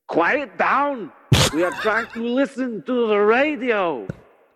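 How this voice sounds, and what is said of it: Put-on German accent, shouting. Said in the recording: “That's my German accent.”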